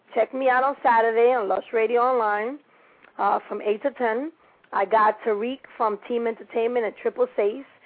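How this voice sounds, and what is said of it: Latina accent. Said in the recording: “everybody that loves this Latina accent”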